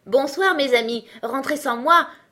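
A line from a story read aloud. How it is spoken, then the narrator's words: Mocking shout. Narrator (French): cria-t-il d'un ton moqueur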